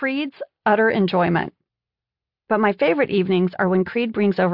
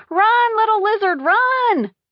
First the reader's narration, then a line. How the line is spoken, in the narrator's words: we kept yelling at the television